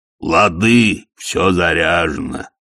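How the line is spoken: Cheerful booming. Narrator (Russian): весело прогудел Детрит

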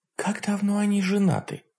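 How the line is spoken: Whispered question. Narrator (Russian): шепотом спросила меня Василиса

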